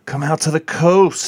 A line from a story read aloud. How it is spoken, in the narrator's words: he sighed